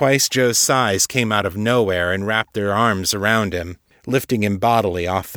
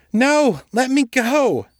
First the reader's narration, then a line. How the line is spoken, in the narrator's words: Joe shouted, thrashing and kicking